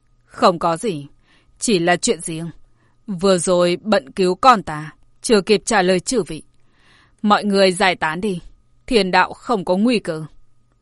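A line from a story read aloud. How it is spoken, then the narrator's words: Smiling. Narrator (Vietnamese): Hàn Tuyệt mỉm cười nói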